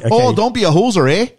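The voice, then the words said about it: Put-on Minnesota or Canadian accent. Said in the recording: “I'm doing Minnesota nice / Canadian ... It's how Americans think Canadians sound ... it sounds Shrek to me”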